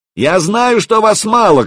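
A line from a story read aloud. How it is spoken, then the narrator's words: Shouted. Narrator (Russian): крикнул он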